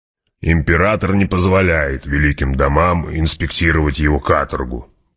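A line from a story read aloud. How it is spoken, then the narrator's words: Grumbling. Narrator (Russian): проворчал барон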